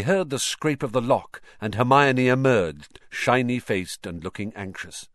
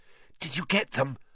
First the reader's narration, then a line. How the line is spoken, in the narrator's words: Hermione asked breathlessly